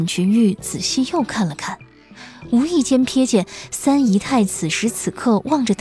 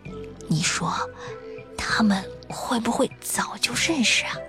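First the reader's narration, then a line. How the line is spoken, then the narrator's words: Low whisper. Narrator (Chinese): 高树清将声音压得更低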